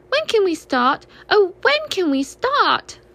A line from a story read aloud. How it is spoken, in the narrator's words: cried Baby Roo